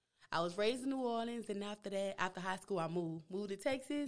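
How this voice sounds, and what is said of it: New Orleans accent. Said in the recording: “I love your accent ... It's jacked up. It was born jacked up.”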